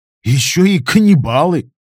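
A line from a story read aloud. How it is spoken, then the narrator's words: Snort. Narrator (Russian): фыркнул хомут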